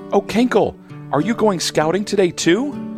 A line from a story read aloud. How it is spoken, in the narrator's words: Hannah Bee buzzes excitedly